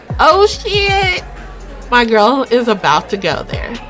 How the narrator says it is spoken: Kinsey laughs obnoxiously

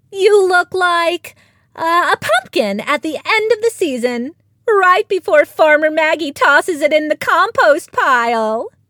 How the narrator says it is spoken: piped up Lily, the eldest of the duckling sisters

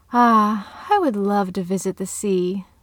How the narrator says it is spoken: the old woman sighed

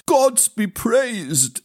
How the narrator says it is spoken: exclaimed Pomp

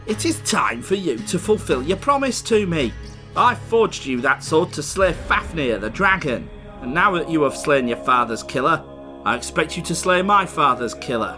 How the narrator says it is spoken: Regin, his foster father, impatiently demanded

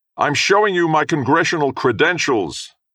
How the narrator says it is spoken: John yelled loud enough so even the men on the drilling platform could hear him

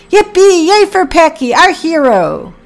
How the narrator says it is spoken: shouted

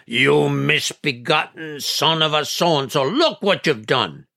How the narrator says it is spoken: Grandfather's roar

